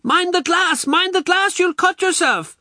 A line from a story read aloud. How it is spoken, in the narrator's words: she shrieks